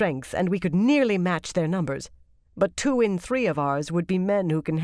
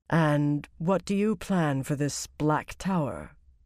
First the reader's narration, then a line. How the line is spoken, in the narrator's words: Abella asked quietly